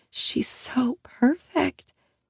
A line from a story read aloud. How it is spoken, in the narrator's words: Annie whispers, awestruck